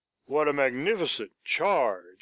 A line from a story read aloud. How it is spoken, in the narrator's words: Sherburne exclaim